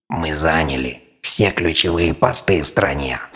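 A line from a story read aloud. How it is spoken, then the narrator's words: Reptiloid snorting. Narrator (Russian): фыркнул рептилоид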